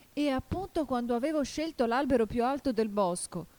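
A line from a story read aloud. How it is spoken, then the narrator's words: Desperate cry of a dove. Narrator (Italian): continuò il colombo con un grido disperato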